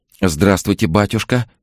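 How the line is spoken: Babbling woman. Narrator (Russian): лепетала женщина

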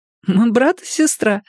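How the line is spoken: Nervous giggle. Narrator (Russian): нервно хихикнула Шири

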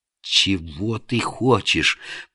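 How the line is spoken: Strangled, forced out. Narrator (Russian): придушенно выдавил на Средин

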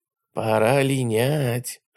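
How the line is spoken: Whisper. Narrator (Russian): шепнул Костя Филимонов

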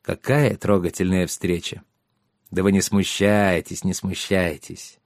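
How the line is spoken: Gentle, affectionate. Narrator (Russian): Шарош ласково произнес

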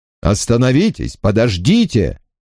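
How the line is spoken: Shout. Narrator (Russian): закричал доктор Грейстил

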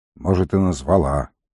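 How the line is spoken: Gruff mutter. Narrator (Russian): буркнул волкодав

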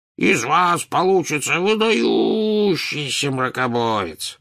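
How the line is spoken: Booming drone. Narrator (Russian): прогудел Слизнард

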